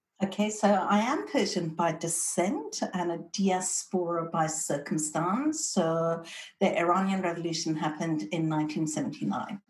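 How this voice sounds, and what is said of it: British accent. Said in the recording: “you've got a British accent... The British accent came because when I was 7, my sisters and I went to boarding school in the UK”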